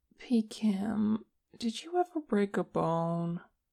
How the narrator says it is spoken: Che asked, his voice drowsy

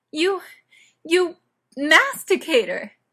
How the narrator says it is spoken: Gayla shrieked

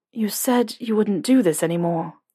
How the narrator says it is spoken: he mumbled

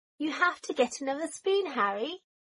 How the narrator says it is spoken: Draco called out

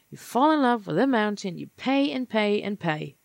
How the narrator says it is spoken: Ray sighed, nearly asleep

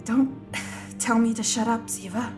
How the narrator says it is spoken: Tony bickers back, the words coming in gasps now

